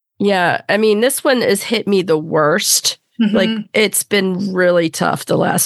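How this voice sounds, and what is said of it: Sick-sounding voice. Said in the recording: “If you could tell by my voice, I've been sick”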